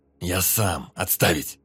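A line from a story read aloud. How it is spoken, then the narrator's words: Growl. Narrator (Russian): прорычал тот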